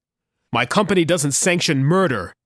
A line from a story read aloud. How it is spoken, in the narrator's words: he snapped